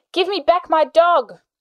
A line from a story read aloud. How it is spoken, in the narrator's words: Charlie yelled